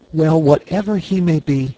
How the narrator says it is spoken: cried the girl

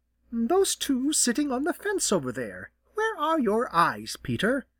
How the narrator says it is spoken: replied Jenny rather sharply

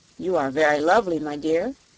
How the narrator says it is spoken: said he

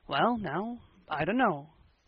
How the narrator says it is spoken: said Matthew

